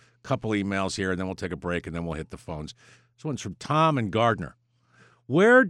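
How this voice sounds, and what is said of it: Usual voice. Nothing is said of it.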